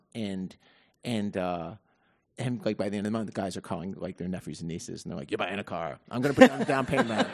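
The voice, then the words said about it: Fake New York accent. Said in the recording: “That's my fake New York accent. ... very authentic. It's a character I'm working on.”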